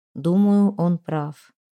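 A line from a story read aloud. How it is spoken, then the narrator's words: Muffled, dull voice. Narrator (Russian): глухо сказал Кокрин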